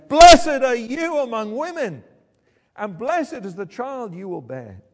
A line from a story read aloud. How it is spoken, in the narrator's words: In a loud voice, she explained